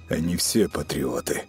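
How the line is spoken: Through gritted teeth. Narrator (Russian): процедил Матиас

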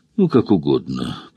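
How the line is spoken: Muttering. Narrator (Russian): пробормотал он

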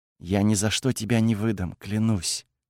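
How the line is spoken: Ardent whisper. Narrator (Russian): Кайла горячо выдохнула, прошептав

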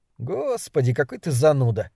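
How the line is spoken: Sighing. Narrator (Russian): вздохнул Дебона

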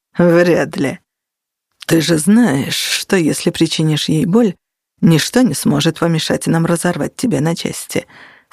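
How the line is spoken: Calm. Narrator (Russian): спокойным тоном произнес Костя

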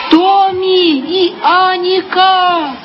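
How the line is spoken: Shouting after someone. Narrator (Russian): кричала вдогонку фру Сеттергрен

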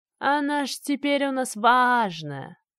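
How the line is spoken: Mocking drawl. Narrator (Russian): протянула насмешливо Ираида

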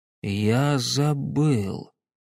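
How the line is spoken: Slow. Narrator (Russian): медленно произнес он

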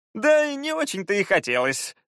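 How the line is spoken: Laughing. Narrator (Russian): рассмеялся Фаул

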